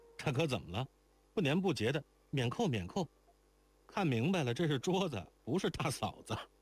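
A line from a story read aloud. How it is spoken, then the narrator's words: Surprised, playful teasing. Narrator (Chinese): 京环又惊又笑，就仍顽皮着道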